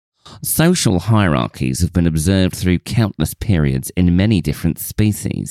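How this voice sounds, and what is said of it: Put-on accent reading a quote. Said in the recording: “Love this accent.”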